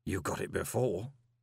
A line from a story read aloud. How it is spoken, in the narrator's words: murmured Gilt